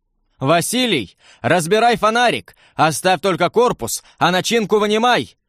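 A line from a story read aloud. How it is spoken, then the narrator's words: Shout. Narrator (Russian): крикнул я товарищу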